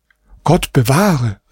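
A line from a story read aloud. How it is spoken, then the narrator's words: Mother calling out. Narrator (German): rief Hasans Mutter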